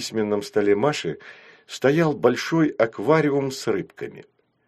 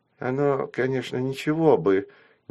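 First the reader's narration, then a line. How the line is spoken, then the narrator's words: Hesitant. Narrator (Russian): неуверенно сказала Дуся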